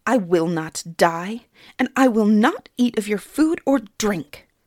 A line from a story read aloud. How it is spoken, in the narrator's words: Suni spat defiantly